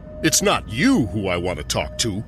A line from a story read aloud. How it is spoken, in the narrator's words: growled the furious Toymaker